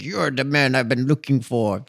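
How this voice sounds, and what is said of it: Failed attempt at German accent. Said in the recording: “That wasn't a German accent. It should have been a German accent.”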